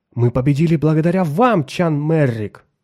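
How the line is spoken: Exclaimed. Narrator (Russian): воскликнул он

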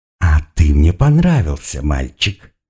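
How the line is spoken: Snide hiss. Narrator (Russian): ехидно прошипела невеста

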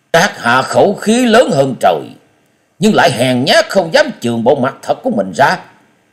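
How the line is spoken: Angry snort, then speech. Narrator (Vietnamese): tức giận hừ lên một tiếng và nói

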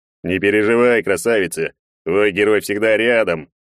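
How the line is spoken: Proud bass voice. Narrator (Russian): гордо пробасил Егор

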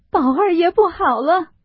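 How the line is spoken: Crying. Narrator (Chinese): 里头又哭出来说

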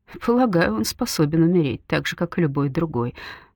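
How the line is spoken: Dry. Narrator (Russian): сухо отвечает Галина

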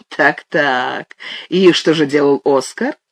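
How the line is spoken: Laughing. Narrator (Russian): Она засмеялась

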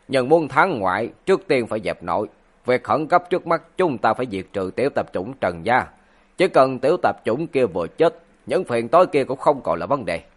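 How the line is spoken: Cold. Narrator (Vietnamese): Tiết Hồ lạnh lùng nói

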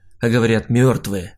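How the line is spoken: Amused snort. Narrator (Russian): хмыкнул я

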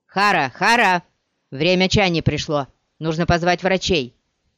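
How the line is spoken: Shouted. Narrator (Russian): крикнул

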